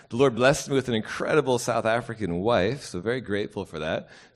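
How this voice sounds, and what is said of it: Hard-to-place accent. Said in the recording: “I cannot place your accent.”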